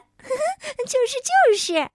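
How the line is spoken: Giggling. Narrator (Chinese): 左边的靴子也咯咯的笑了起来

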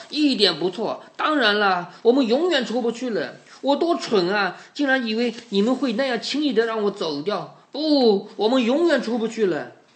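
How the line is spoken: Loud shout. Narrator (Chinese): 他大声的喊道

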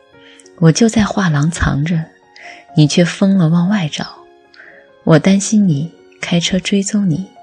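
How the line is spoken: Laughing. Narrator (Chinese): 菜包笑着说

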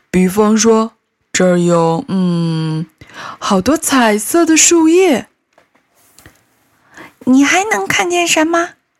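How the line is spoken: Asking. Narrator (Chinese): 默默继续问

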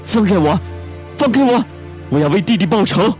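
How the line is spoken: Loud shouting. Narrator (Chinese): 赵正明大声的叫道

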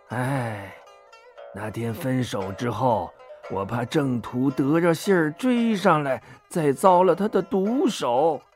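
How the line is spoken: Old man sighing. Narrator (Chinese): 金老汉呐，叹口气说

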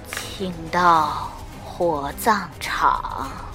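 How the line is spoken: Miserable hoarse voice. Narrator (Chinese): 那人 用凄惨而沙哑的声音说

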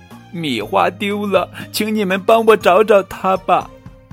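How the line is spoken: Loud sobbing. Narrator (Chinese): 棉花糖大哭着

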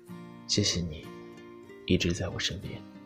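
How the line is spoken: Low voice. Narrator (Chinese): 低声说道

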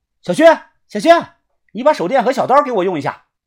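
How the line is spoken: Shouting outward. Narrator (Chinese): 我冲外喊道

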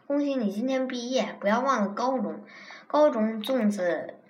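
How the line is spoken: Laughing. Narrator (Chinese): 霓虹笑道

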